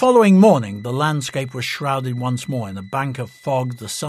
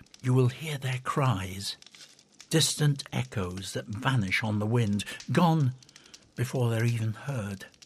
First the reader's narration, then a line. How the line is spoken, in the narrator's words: Thilar whispered